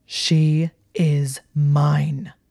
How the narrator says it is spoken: the words were snarled with enough force that Hermione could have sworn the walls of Hogwarts vibrated

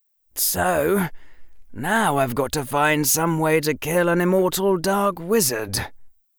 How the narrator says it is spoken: Harry said and sighed in frustration

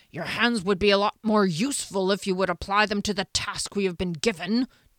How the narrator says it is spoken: Janik growled at his friend with sarcastic formality

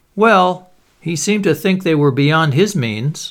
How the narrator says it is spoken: laughed Dorian

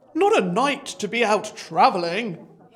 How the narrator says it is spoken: boomed

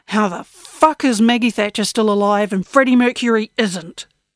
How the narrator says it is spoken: growled Blue

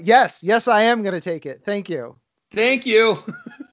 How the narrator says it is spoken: he just yells out

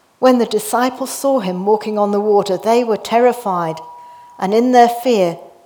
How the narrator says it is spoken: they cried out

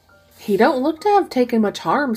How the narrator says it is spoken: said Mrs

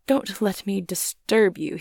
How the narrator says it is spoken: he said with a certain faltering articulation

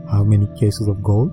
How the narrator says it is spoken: he asked

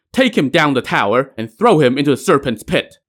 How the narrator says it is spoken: barked

